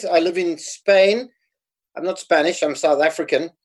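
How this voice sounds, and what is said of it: South African accent. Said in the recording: “I grew up in South Africa, so I have a South African accent.”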